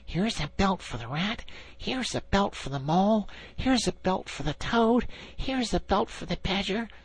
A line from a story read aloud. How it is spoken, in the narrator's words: The anxious and laborious Rat … muttering